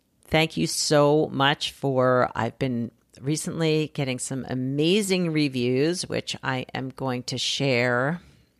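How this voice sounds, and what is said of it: Slightly scratchy, hoarse voice. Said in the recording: “My voice is a little scratchy today. ... not feeling like I have my usual voice, my usual speaking voice.”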